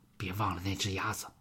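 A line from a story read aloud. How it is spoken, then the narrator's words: Low voice. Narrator (Chinese): 他低声对吉米说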